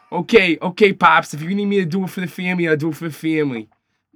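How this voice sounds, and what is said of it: Exaggerated, awful put-on accent. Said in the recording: “someone's awful accent ... that whole accent's a joke”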